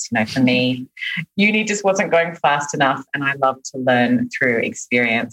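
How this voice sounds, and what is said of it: Australian accent. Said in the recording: “you can probably hear from my accent that I'm not from here originally. I'm Australian.”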